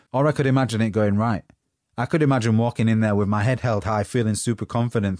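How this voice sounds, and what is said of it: Northern English accent. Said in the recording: “I've got a Northern accent”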